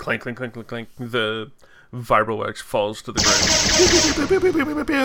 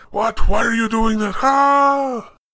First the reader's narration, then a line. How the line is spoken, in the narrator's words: yelling, screaming